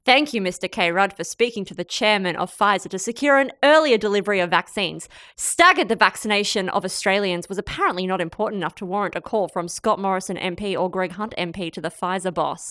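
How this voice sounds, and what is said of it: Impression of Malcolm Turnbull. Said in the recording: “Did I do a good voice? ... You did. It really got the sort of, it got the energy of it, really.”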